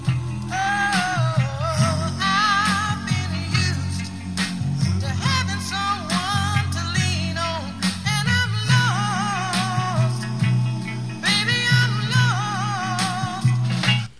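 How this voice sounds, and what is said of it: Singing in falsetto. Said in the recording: “that's called the falsetto voice. Falsetto.”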